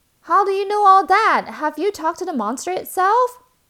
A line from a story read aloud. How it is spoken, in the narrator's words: shouted another villager